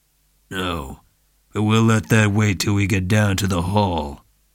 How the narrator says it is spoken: Dundee's face, still darkening, was immobile except for lips moving stiffly to say

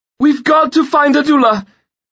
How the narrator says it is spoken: she shouted to her husband

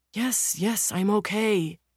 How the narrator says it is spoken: the younger man groans

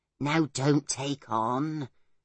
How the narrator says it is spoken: said Pod in a tired voice

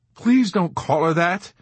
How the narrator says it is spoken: Nately begged, looking as though he might cry

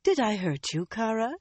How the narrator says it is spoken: she said sweetly

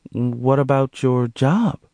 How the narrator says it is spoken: Monique inquired hesitantly

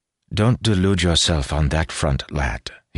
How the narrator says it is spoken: he said, his tone gentle

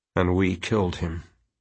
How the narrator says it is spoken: Quentin said coldly

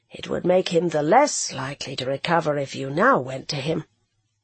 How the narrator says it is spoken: said gently and very gravely

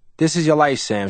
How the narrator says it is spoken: she said

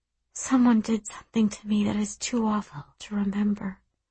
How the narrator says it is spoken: I whisper

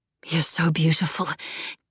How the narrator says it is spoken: Keisha murmured

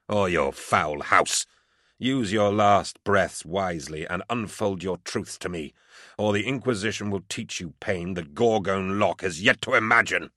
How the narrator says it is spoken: I spat into his bloody face

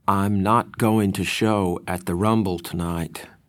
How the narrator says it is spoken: Randy said slowly

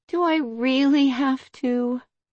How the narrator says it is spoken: she whined

